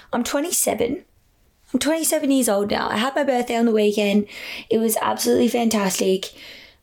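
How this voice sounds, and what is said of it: Worn-out, strained voice. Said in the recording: “I'm sure you can tell by my voice. I've had a bit of a week.”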